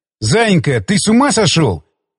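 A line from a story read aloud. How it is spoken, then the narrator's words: Breathless after laughter. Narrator (Russian): смог сказать я, когда продышался после согнувшего меня пополам приступа хохота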